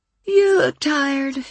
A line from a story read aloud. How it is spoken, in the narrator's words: she said with a yawn